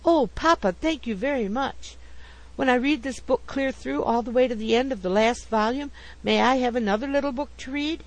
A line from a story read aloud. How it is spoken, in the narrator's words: He cried aloud